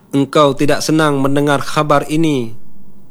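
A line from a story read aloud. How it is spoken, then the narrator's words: Plain. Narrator (Indonesian): tanya Jibril lagi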